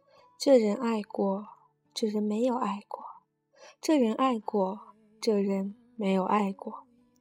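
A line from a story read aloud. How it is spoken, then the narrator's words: Murmured chanting. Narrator (Chinese): 他嘴里念着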